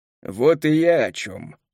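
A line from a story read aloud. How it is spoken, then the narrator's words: Scoffed. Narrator (Russian): хмыкнул Келлер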